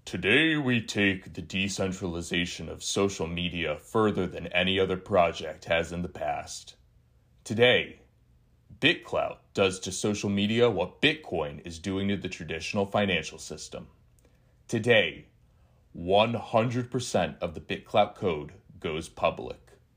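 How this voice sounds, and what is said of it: Imitation of Diamond Hands' voice. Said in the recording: “Let me do my Diamond Hands voice.”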